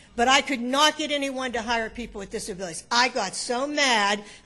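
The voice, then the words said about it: Emotional, agitated voice. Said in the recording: “I bet you can tell I'm a little emotional,”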